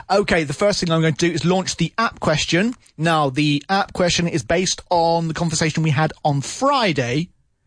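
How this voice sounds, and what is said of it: Slightly croaky voice. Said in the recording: “Hopefully my voice will be okay because I did shout quite a lot during the last half hour ... my voice is a little bit croaky”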